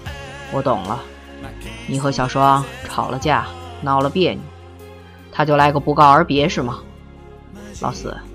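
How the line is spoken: Sighing, understanding. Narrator (Chinese): 江淮叹口气……了解地说

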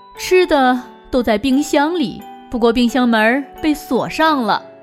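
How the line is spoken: Smiling mother. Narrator (Chinese): 罗辑妈妈微笑着说

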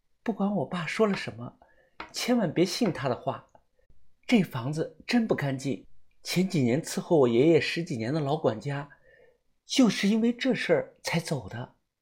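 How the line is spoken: Quiet whisper. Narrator (Chinese): 他小声地说

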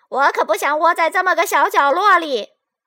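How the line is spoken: Clamoring loudly. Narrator (Chinese): 红色又嚷嚷起来了

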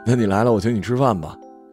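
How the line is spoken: Hearty laughter. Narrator (Chinese): 余舟哈哈大笑

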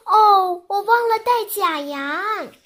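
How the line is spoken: Startled cry. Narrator (Chinese): 女巫惊叫道

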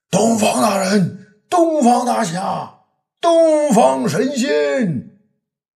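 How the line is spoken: Man shouting while running. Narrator (Chinese): 一个三十来岁、商人模样的人边跑边叫道

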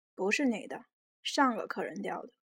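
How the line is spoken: Cold. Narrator (Chinese): 司机冷冷地说

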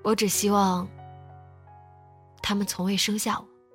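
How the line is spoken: Soft. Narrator (Chinese): 只是轻声说

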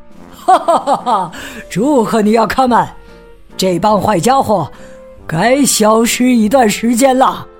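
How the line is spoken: Happy laughter. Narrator (Chinese): 皮迪克开心的大笑

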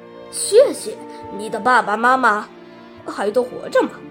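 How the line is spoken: Plain. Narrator (Chinese): 吃火人问

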